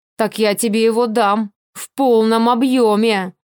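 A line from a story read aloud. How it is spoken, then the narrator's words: Growling in face. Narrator (Russian): Рычал он мне прямо в лицо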